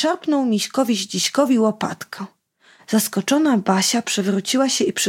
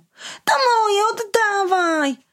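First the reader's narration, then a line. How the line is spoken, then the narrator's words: Boy's sudden shout. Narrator (Polish): nagle bawiący się obok chłopiec krzyknął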